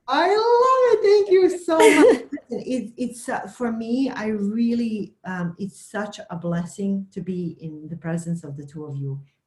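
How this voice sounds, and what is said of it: Immigrant foreign accent. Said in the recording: “my immigrant accent ... I love your accent”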